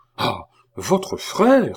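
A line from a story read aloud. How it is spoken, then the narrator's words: Exclaiming. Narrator (French): s'écria Marie-Antoinette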